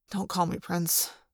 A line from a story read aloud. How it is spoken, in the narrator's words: Jake said wearily for the thousandth time